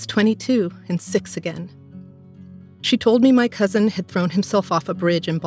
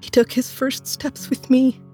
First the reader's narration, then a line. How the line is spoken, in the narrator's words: she sobbed